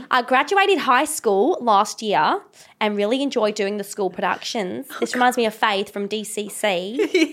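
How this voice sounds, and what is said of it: Poor put-on Australian accent. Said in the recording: “Should I do this in an Australian accent? ... This is so bad.”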